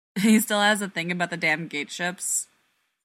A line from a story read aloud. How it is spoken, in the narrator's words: Ford laughs